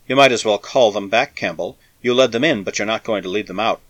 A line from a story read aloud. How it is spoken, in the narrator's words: Tredrick said evenly